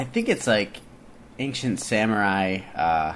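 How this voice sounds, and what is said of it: Usual voice. Nothing is said of it.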